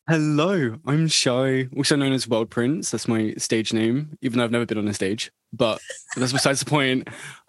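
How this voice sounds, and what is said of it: British accent. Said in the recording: “I'm from the UK ... your accent is amazing”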